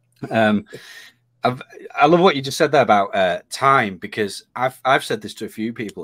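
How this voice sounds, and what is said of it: Hoarse, croaky voice. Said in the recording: “I've got a frog in my throat”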